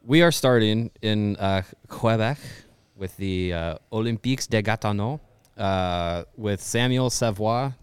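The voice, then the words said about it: Put-on French Canadian accent. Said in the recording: “That's my French Canadian accent, so yell at me if it's bad.”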